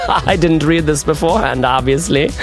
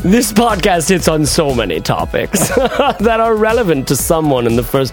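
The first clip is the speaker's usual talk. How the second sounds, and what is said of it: Put-on accent, German drifting to reggae. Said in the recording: “It started German and trended reggae.”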